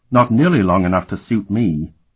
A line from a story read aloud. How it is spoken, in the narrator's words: she replied coldly